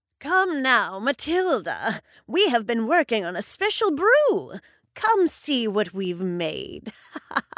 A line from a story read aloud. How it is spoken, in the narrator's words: said Gruella, cackling